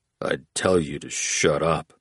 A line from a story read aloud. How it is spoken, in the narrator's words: Oates muttered